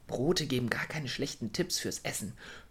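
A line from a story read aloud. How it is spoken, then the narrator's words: Whispering to herself. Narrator (German): flüsterte sie sich selbst zu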